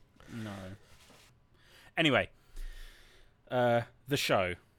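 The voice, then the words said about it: Dramatic delivery. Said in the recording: “I said it so dramatically.”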